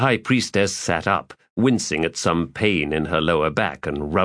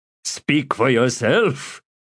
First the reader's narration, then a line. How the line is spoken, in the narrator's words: Spinnok said, laughing